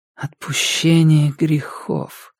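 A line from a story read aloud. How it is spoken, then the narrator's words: Whisper. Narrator (Russian): прошептала она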